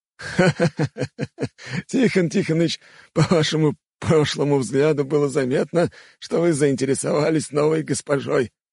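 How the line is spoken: Laughing loudly. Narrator (Russian): расхохотался Степан

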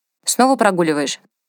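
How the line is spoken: Stern but not serious. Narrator (Russian): спросил Ганс строго, но не всерьез

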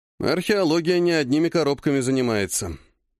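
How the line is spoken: Gloomy. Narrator (Russian): мрачно сказал дядя

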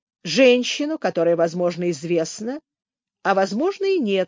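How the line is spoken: Calmer agreement. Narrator (Russian): согласился более спокойно Слоун

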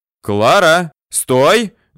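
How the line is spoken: Shouted. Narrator (Russian): закричал

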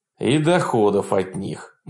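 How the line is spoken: Gloomy. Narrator (Russian): мрачно добавил Франкель

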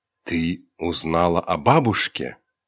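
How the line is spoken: Quiet question. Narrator (Russian): Ариньяна тихо спросила

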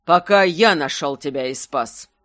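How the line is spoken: Almost rude reply. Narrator (Russian): почти грубо ответил он

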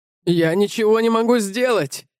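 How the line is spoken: Screaming. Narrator (Russian): завопил Эйджи

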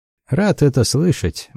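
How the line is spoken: Grim. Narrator (Russian): мрачно сказал Дарвер

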